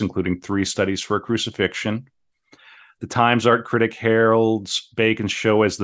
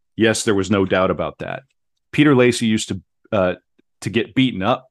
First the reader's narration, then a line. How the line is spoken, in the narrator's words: said Paul